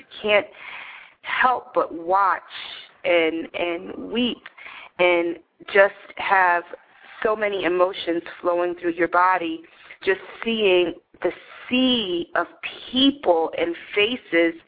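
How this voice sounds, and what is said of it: Choked-up, emotional voice. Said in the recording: “as you can hear in my voice, I'm a little choked up.”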